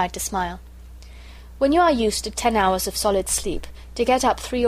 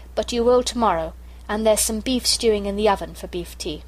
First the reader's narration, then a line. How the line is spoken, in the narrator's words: said Bobby firmly